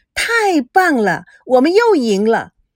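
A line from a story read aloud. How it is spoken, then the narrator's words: Deliberately loud. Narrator (Chinese): 孙娜……她故意大声地说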